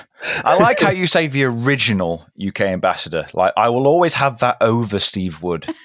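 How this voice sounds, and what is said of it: British accent. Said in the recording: “our original British ambassador ... You're sounding very distinguished as always. I envy your accent.”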